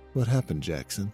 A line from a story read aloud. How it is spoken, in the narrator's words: said in a comforting tone